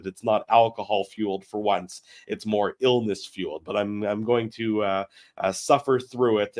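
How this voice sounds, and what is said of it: Hoarse and congested voice. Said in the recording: “I'm a little under the weather, so that might be why I sound a little bit hoarse and a little bit congested.”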